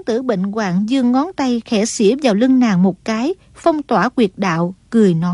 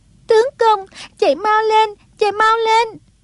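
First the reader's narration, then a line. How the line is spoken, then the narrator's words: Crying out in tears. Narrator (Vietnamese): Song Nhi cuốn quá bật khóc, kêu lên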